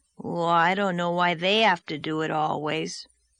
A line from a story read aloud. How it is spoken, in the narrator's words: grumbled Davy